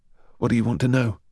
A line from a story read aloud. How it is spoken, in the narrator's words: said, his voice flat and emotionless